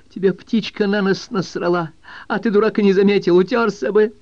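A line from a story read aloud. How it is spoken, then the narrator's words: Awkward foolish delivery. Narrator (Russian): по-дурацки, когда он выговорил их вслух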